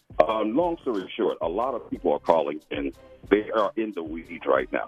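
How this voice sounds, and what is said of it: Radio-announcer style voice. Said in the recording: “Got a radio voice”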